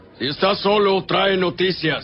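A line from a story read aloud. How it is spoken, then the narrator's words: King replying. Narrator (Spanish): el rey respondió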